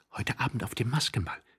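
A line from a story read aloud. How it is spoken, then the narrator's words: Quick whisper. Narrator (German): flüsterte sie schnell Tworogow zu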